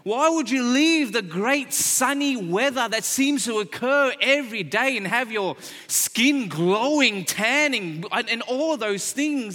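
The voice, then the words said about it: Australian accent. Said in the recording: “my stupid accent ... I'm not from around here, that I was born and raised in Sydney, Australia”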